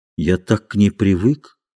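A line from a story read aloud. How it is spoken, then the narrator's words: Said quietly. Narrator (Russian): сказал он тихо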